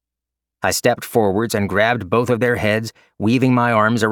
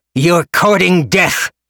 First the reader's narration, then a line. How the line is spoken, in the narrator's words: he roared